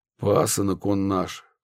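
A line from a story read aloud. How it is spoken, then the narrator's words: Sighing host. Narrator (Russian): вздохнул хозяин дома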